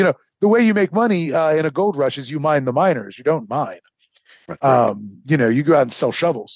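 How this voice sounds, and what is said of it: Usual voice. Nothing is said of it.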